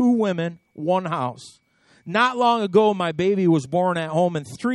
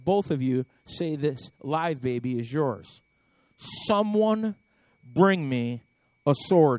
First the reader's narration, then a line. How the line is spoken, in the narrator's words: he says